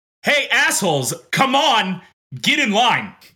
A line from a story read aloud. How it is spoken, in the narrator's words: shout like